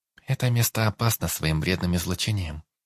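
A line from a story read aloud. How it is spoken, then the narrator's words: Calm young woman answering. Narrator (Russian): спокойно ответила девушка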